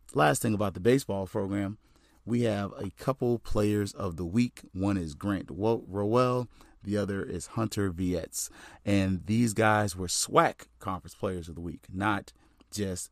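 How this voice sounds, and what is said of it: Strained, worn-out voice. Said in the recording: “as you can tell, I've been cheering for these guys. And so my voice has gotten a little away from me”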